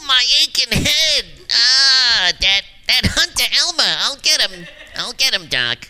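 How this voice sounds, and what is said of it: Bugs Bunny cartoon voice. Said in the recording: “you've got a Bugs Bunny as well”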